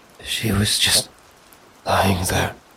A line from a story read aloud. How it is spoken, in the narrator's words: she whispered, her eyes wide with fear